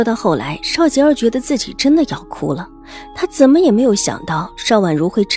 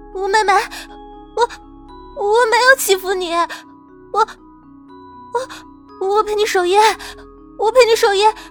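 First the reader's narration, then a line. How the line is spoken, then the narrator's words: Terrified, near tears. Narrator (Chinese): 邵吉儿早已吓得丢了魂，声音带着几分哭腔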